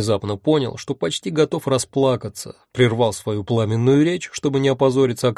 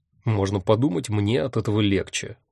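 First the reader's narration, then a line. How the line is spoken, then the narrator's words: Grumbling mutter. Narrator (Russian): буркнул я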